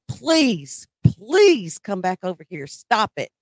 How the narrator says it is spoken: I'm screaming at him

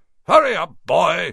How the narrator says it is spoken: shouted Uncle Vernon from the kitchen

